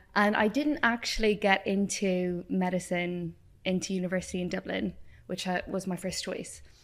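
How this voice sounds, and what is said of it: Irish accent. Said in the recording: “If you haven't guessed from my accent, I grew up in Ireland.”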